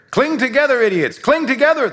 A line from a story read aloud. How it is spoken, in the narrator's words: the captain yelled